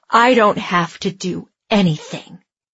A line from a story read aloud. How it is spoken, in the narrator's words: Andy growled